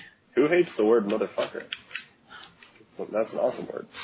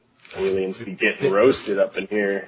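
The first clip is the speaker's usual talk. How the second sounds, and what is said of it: Put-on deep voice. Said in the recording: “Bit of a deep voice there.”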